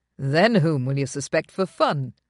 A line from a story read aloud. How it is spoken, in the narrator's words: answered cheerfully